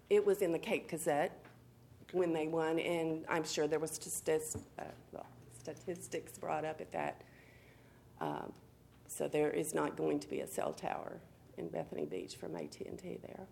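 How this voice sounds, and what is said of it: Hoarse, fading voice from illness. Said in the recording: “I'm losing my voice because of all this pollen. I've been sick for a week.”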